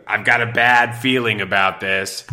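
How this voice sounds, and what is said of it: Imitates another person's voice. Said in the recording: “that was a pretty good impression that I did ... It was like pretty good ... That's pretty good.”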